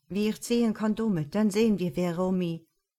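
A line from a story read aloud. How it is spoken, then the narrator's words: Sudden call. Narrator (German): Plötzlich rief Juan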